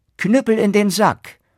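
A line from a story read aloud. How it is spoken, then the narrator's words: Called out. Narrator (German): rief er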